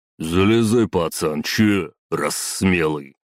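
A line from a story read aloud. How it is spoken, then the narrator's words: Booming bass voice. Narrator (Russian): ответил раскатистым басом водила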